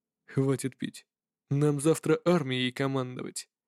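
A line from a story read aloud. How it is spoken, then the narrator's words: Serious tone. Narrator (Russian): серьезным тоном ответил генерал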